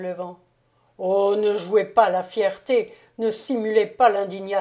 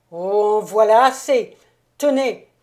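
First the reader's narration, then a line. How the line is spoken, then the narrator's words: Explosive outburst. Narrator (French): s'écria avec explosion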